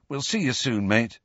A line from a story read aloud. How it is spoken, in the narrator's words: said Ron anxiously